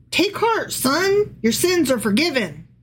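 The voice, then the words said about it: Texan accent voicing Jesus. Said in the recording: “Do you like how I gave Jesus a Texan accent?”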